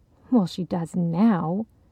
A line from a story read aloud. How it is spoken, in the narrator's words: Cheryl muttered